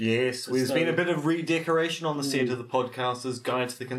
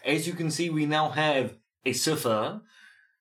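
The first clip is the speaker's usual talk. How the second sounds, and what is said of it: Mock French accent. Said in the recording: “I don't know why I said that with a French accent.”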